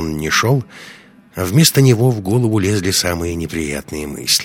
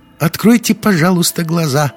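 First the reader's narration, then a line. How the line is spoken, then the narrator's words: Thin-voiced request. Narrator (Russian): тонким голосом попросил один из парней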